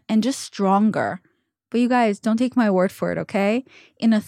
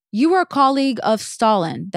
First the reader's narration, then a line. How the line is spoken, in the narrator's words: the heckler yelled